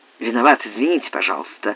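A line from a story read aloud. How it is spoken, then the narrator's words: Muttered apology. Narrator (Russian): пробормотал Франк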